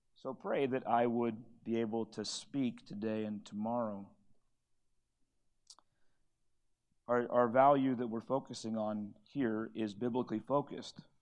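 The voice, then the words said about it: Strained, partly lost voice. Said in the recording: “I don't know if you can hear it, but my voice is not departing from me, but it is not all with me.”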